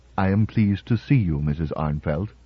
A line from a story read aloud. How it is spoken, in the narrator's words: He said, in his curiously neutral voice, too smoothly average to be quite human